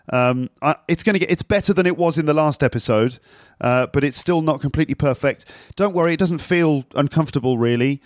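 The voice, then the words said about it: Deep voice from sore throat. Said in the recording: “it sounds a bit deeper than it normally does ... I sound like some sort of cool DJ ... my throat is still recovering from a sore throat ... making my voice sound a lot deeper ... deep voice”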